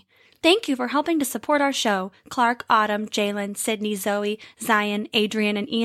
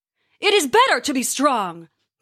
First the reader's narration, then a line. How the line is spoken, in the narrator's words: Thor bellowed